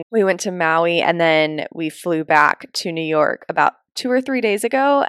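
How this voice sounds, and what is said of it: Rough, tired-sounding voice. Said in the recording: “that makes it sound really dirty, but it wasn't from screaming ... I've just been very jet lagged ... that is an explanation of why my voice sounds like this”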